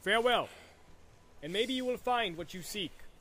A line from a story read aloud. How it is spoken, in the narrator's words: cried Eomer